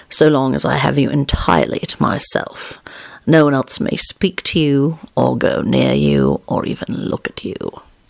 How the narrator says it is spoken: replied lazily

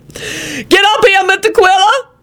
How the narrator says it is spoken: Lucretia wailed

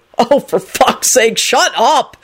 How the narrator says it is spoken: Henry yelled

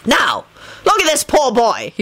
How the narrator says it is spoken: he shouted

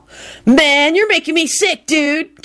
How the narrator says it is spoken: Kenny whined angrily

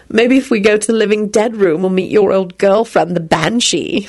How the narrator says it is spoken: she giggled

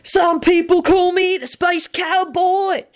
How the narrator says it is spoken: he yelled enthusiastically from his bed

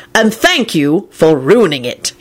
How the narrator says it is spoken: he snarled at Kingsley

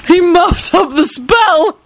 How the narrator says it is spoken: George wheezed

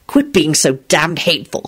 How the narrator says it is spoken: he snapped

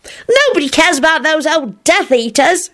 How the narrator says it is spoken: he added crossly

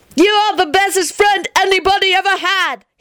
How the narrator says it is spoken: he yelled ecstatically

